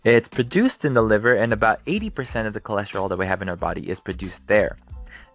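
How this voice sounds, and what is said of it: Speaks with a noticeable accent. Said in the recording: “my accent's coming out”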